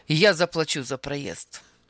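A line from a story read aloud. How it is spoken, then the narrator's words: Sharp declaration. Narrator (Russian): заявил он резко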